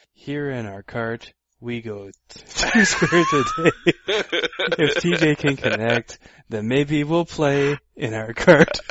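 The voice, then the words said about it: Mock bard voice. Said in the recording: “my pseudo bard impression.”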